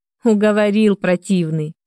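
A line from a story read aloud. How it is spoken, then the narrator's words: Laughing. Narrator (Russian): рассмеялась я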